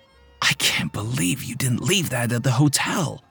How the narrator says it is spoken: he said quietly

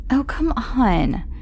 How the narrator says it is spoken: Carolyn groaned

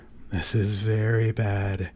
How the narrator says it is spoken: the priest mumbled

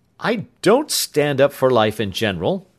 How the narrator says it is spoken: he added, chuckling

